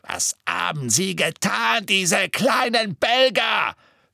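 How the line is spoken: Shouting. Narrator (German): schrie

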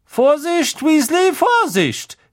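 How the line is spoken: Calling out. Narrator (German): rief Professor Sprout

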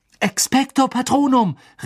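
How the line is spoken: Calling out. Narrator (German): rief

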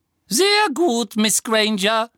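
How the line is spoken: Squeaky thin voice. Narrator (German): ertönte Professor Flitwicks quiekende, dünne Stimme

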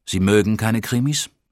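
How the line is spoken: Plain question. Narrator (German): fragte ich

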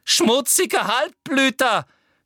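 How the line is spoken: Shouted. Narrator (German): schrie Umbridge

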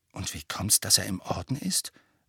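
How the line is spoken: Very quiet. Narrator (German): sagte Harry sehr leise

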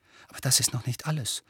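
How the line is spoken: Almost whispering. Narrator (German): fuhr Harry jetzt fast flüsternd fort

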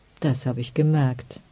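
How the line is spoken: Murmuring. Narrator (German): murmelte Lamita

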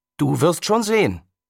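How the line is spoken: Calling out again. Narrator (German): rief Hiroshi noch einmal

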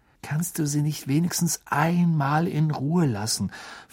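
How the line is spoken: Quiet question. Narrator (German): fragte Harry Ron mit leiser Stimme

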